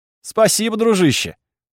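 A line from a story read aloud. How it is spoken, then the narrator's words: Laughing. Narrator (Russian): рассмеялся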